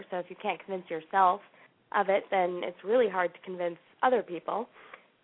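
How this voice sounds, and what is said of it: Voice affected by a cold. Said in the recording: “I have a little cold here ... not good for radio or conference calls”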